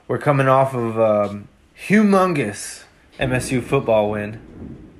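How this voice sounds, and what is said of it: Sarcastic tone. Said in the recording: “I'm saying that sarcastically.”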